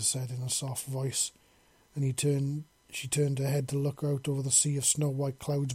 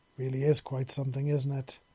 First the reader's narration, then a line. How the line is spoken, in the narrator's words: Seven said